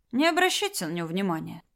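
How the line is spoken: Calm. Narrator (Russian): сказал спокойно Марат

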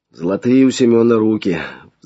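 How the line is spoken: Sighing. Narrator (Russian): вздохнул Флавиан

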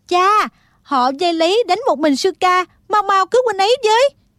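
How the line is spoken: Urgent cry. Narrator (Vietnamese): Thích Phương kêu lên

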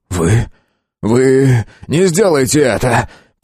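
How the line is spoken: Prisoner almost moaning. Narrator (Russian): Почти простонал арестованный

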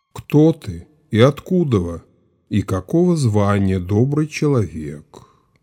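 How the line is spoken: Neutral officer's voice. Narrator (Russian): сказал сотник ни ласково, ни сурово

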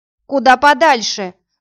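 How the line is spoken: Angry shout from youth. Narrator (Russian): зло крикнул кто-то из ребят

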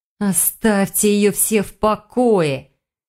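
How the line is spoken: Annoyed near-growl. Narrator (Russian): Ведьма едва не зарычала, понимая, что испорчено не только утро и не только завтрак

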